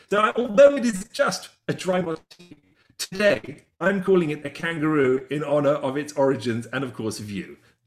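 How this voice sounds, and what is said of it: English accent. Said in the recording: “You're obviously from England, yeah? ... your accent is very, I just miss it”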